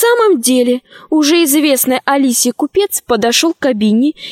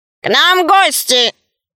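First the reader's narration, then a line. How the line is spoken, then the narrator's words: Loud robot voice. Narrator (Russian): робот-художник громко сказал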